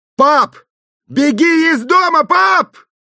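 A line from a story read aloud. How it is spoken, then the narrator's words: Shouted. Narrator (Russian): крикнул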